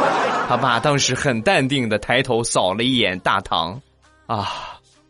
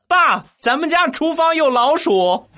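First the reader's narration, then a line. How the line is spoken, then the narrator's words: Loud. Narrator (Chinese): 大声的跟他爸就说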